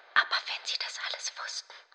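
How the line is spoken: Barely a whisper. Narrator (German): begann kaum fähig, ihrer Stimme mehr als ein Flüstern abzubringen

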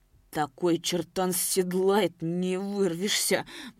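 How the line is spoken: Old man muttering. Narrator (Russian): бормотал дед Щукарь

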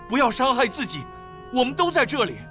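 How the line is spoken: Loud calling. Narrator (Chinese): 保罗大声呼叫说

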